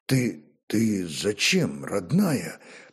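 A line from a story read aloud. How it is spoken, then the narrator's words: Whispered. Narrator (Russian): прошептал он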